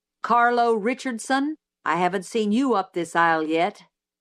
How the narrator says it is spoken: Reverend Sykes startled me by saying sternly

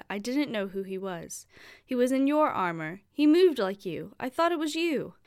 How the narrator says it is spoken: pleaded

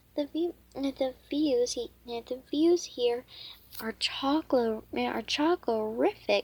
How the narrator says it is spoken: she exclaimed

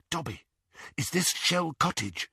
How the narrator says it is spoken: he whispered

